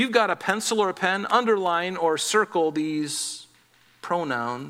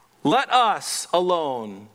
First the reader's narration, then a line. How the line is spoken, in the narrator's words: the man said